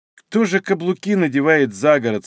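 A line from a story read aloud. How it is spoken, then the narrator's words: Grumbling. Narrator (Russian): снова проворчала Софья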